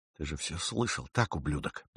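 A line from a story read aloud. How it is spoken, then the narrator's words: Hissed. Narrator (Russian): прошипел он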